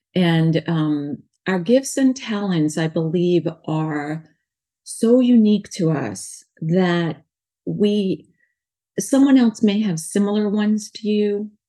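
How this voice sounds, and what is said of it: New York accent. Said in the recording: “I have a New York accent because I was born in New York”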